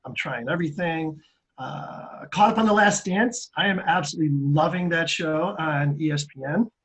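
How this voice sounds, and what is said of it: Voice affected, congested-sounding. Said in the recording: “my allergies are absolutely kicking my ass, so excuse my voice.”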